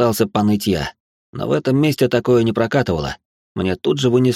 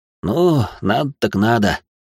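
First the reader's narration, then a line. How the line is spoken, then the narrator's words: Quiet grumble. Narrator (Russian): проворчал тихо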